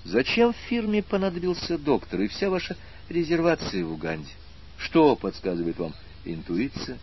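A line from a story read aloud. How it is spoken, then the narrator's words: Heavy sigh. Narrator (Russian): аспирант вздохнул тяжело и добавил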